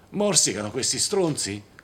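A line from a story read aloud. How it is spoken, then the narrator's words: Yell from behind door. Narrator (Italian): urlò Charles Freck da dietro la porta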